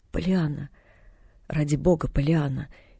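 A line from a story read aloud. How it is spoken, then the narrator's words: Quiet pleading. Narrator (Russian): тихо возмолился в ответ мистер Пентон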